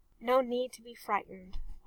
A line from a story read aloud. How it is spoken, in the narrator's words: Arthur said softly